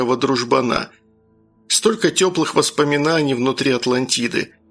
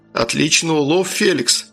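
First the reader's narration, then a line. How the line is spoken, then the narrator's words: Lifeless exclamation. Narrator (Russian): воскликнул мертвым голосом Джон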